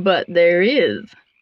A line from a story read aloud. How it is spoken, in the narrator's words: croaked the frog